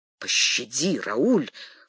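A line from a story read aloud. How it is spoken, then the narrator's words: Whisper. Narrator (Russian): шепнул Дегиш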